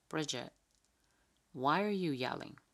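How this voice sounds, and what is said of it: Flat monotone voice. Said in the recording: “in this monotone level”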